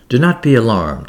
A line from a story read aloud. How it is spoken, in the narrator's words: said kindly